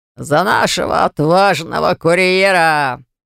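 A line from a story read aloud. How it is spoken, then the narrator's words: Deep booming voice. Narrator (Russian): пробасил Дафф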